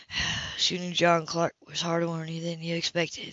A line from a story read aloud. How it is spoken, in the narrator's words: he replied quietly